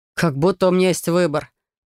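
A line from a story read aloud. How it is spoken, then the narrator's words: Grumbling. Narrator (Russian): проворчал Трей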